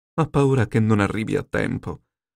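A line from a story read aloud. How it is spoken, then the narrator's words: Sighed. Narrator (Italian): sospirò la Yue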